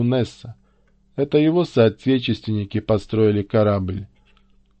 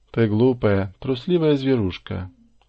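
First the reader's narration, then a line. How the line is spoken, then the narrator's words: Affectionate, gentle. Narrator (Russian): ласково сказала она кукольнику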